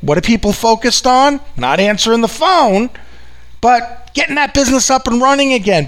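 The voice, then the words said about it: New York accent. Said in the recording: “if you haven't picked up from this accent, I'm out in good old New York in the U.S. of A.”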